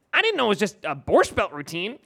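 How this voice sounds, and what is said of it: Imitates another person's voice. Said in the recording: “That's a really good Will impression.”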